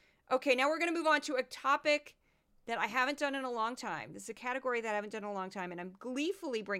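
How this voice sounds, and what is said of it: Usual voice. Nothing is said of it.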